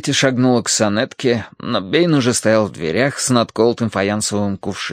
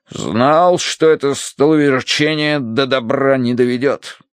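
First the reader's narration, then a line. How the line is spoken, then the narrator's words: Grumbling. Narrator (Russian): проворчал полковник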